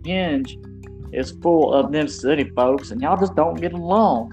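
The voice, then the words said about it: Put-on country accent. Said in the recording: “That's why I did this accent when I was talking about farmersonly.com.”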